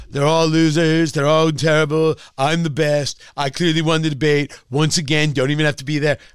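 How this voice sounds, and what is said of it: Imitates another person's voice, poorly. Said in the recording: “My impression sucks.”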